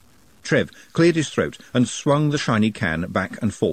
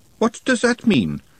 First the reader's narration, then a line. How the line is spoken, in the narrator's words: said Glenda sharply, always on the lookout for dangerous words